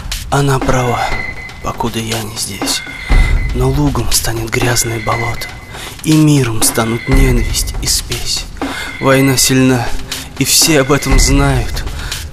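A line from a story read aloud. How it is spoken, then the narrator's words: Soft familiar whisper. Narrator (Russian): шептал мне голос, тихий и родной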